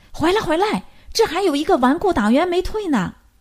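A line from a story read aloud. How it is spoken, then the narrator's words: Loud shout. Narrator (Chinese): 一个人高声喊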